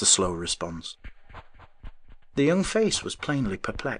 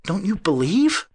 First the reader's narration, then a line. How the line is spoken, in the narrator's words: he stammered